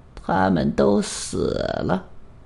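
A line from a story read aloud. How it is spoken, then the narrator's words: Old man, low voice. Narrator (Chinese): 老人低声说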